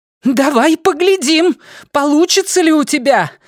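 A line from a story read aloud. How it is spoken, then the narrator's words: Exclaiming, voice shaking with rage. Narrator (Russian): воскликнула Дженна вибрирующим от ярости голосом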